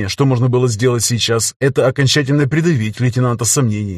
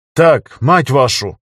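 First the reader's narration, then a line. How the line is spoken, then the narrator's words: Barked. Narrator (Russian): рявкнула Лазарева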